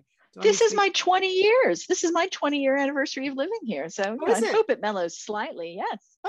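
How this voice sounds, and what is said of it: Mild American accent. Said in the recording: “despite your American accent in there ... Although it seems to be mellowing as time goes by.”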